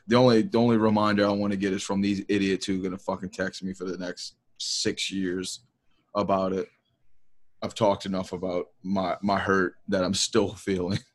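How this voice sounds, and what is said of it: Tired, exhausted-sounding voice. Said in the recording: “you sound tired ... sounding fucking exhausted ... But you sound dead.”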